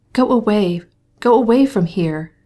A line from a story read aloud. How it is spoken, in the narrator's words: she cried still more impetuously